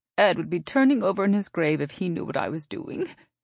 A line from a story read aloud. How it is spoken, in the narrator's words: she had told Dale with a giggle